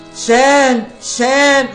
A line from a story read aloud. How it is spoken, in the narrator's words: Lord Chaitanya roared